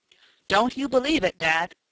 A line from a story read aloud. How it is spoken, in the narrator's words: cried Tom, with more of a jolly air of one chum toward another than as though the talk was between father and son